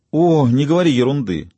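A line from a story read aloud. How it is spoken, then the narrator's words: Exclaiming. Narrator (Russian): воскликнула она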